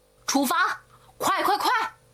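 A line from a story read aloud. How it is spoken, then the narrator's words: Shouting. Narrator (Chinese): 哈桑大喊着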